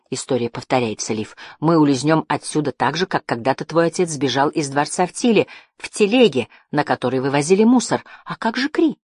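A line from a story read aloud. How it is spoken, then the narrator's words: Plain. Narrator (Russian): спросила Жасмин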